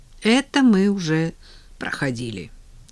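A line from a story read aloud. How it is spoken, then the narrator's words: Sighing. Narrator (Russian): вздохнула Надя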